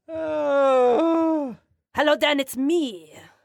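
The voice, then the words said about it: Put-on French accent. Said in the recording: “can you do the rest of the show with the for that French accent? ... I can.”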